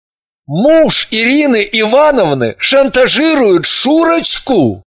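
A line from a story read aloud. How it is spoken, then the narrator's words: Stunned exclamation. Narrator (Russian): воскликнул он ошарашенно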